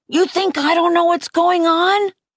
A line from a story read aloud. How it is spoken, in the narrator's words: I yelled